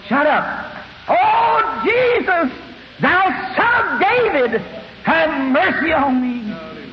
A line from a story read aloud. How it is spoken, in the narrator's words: The rest of them around here hollering also